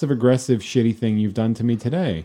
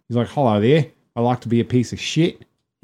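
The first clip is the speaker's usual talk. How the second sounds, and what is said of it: Put-on Australian accent. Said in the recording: “people Tim immediately try to do the accent”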